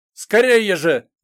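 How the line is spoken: Shouting. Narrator (Russian): закричал

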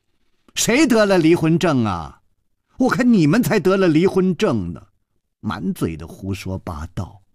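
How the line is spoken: Angry, loud. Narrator (Chinese): 那个尸体的脸好像气红了，他大声地说

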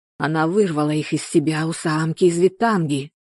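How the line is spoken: Hoarse rasp. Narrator (Russian): прохрипел

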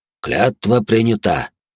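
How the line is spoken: Solemn proclamation. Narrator (Russian): торжественно провозгласил Долгорукий

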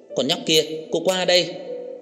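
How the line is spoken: Yelled call. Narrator (Vietnamese): Cô gào lên một tiếng gọi Đường Khả Hinh

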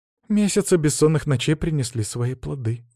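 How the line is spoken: Tired, young woman. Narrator (Russian): устало произнесла девушка

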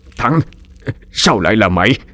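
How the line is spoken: Stunned stammer. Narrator (Vietnamese): ông Hành mới ú ớ lắp bắp

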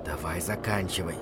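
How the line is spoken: Whispered. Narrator (Russian): прошептал я

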